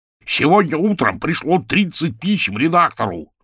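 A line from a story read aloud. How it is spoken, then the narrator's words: Yelling. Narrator (Russian): заорал ЧБ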